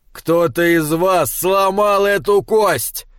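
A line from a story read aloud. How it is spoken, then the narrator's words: Thundering. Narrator (Russian): прогремел Тор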